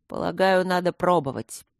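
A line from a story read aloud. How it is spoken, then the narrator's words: Gloomy grumble. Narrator (Russian): хмуро проворчал Трот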